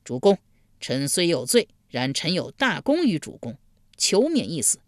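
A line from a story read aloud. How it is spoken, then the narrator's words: Loud pleading cry. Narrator (Chinese): 贾华高声呼道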